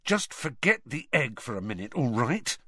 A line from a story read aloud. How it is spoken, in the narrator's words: Harry hissed